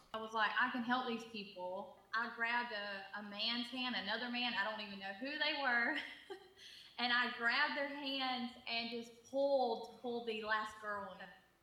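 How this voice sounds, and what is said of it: Georgia Southern US accent. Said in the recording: “You hear that accent? She's from Georgia, right?”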